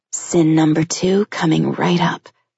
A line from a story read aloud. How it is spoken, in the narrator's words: she murmured huskily